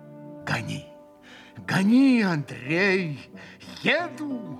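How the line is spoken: Feverish exclamation. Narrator (Russian): воскликнул как бы в горячке Митя

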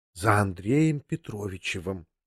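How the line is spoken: Confidential whisper. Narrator (Russian): произнесла она конфиденциальным шепотом

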